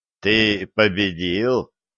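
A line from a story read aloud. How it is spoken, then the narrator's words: Smirking grunt. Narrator (Russian): хмыкнул ведун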